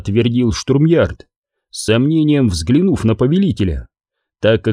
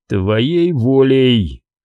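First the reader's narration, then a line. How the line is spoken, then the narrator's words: Growling under breath. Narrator (Russian): прорычал про себя Харек, взывая к примарху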